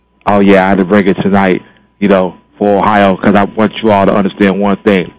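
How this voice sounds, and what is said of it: Radio announcer style voice. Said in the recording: “I hear your radio voice, man. Very nice.”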